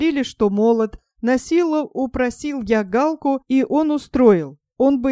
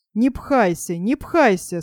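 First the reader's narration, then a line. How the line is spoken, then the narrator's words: Calm grumbling. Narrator (Russian): спокойно ворчал Бас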